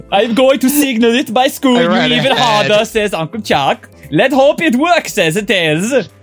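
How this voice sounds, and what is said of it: Put-on vaguely Scandinavian accent. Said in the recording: “Where is this accent coming from? ... almost Italian, but not quite. ... It's that country where the Swedish chef comes from.”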